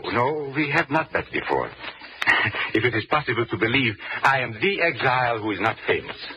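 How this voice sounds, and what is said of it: Hard-to-place European accent. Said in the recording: “I always have a good ear for the accents of your country, but yours is most difficult to place. Is it Asuf German? ... it is difficult to place my accent”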